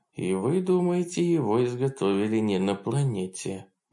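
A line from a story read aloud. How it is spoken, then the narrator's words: Grim summary. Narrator (Russian): мрачно подытожила Хонор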